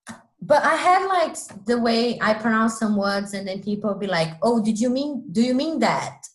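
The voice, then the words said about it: Non-native English accent. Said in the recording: “Google why I have the accent I do ... English is not my first language.”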